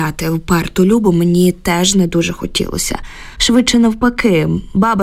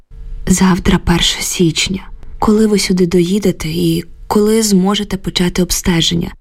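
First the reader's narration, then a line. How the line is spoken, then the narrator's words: Tired question. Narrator (Ukrainian): втомлено запитала я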